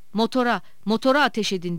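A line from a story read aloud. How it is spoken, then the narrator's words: Shouting. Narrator (Turkish): diye bağırıyordu Şeker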